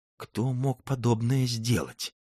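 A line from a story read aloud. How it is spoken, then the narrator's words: Hoarse, sunken voice. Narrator (Russian): осевшим голосом спросил Барлога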